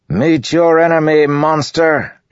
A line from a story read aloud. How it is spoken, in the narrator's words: Elokar bellowed